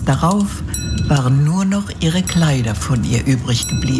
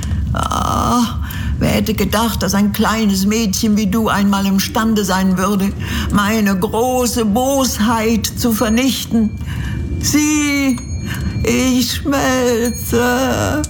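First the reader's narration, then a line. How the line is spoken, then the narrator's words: Witch whimpering in agony. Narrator (German): wimmerte die Hexe unter Qualen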